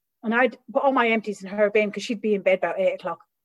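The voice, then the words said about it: Irish Midlands accent. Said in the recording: “my accent's from the Midlands”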